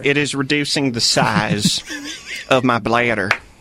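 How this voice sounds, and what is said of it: Slow, terrible imitation of another person. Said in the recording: “the best terrible impression I've ever heard ... That's your Mateo impression? ... It is a slower version”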